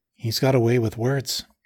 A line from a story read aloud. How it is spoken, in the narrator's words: she said